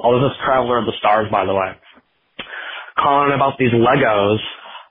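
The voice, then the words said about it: Congested voice with sniffles. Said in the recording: “sorry in advance if I sniffle or I sound a little congested. ... I'm getting over a cold.”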